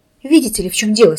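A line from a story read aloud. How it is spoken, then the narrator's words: Plain. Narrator (Russian): сказал я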